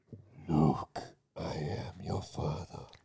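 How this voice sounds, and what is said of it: Darth Vader impression. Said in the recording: “All right, Darth Vader. ... That was pretty good.”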